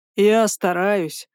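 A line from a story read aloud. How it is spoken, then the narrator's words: Sly snort. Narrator (Russian): хмыкнул он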